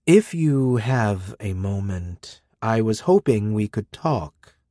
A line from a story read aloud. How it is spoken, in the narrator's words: he said